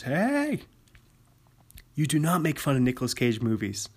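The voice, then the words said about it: Stern dad voice. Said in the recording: “Just get my dad voice.”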